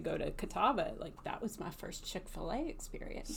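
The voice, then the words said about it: Southern American accent. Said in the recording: “You do a good Southern accent. ... my Southern accent.”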